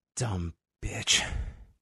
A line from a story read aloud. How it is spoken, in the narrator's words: under her breath, she just says